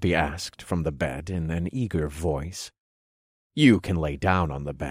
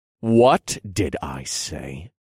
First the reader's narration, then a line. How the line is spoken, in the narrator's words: I growled